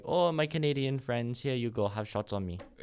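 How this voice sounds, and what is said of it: Put-on Italian accent. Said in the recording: “Is that your best Italian accent?”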